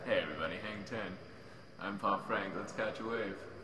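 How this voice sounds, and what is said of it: Surfer dude alien character voice. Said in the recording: “my impression of Pop Frank as an alien ... my surfer dude ... surfer dude alien character”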